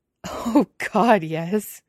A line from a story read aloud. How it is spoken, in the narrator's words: Hua Cheng laughs